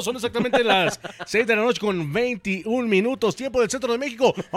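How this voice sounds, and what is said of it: Exaggerated radio announcer voice. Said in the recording (Spanish): “tienen mucho esto de cambiar la voz ... Y su voz de locutor.”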